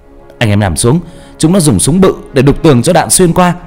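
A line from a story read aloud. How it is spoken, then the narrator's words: Shouting. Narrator (Vietnamese): Bà la lên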